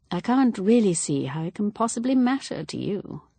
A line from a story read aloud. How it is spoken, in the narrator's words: said Evelyn dryly